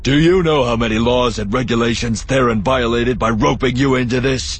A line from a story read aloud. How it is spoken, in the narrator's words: He shouted at her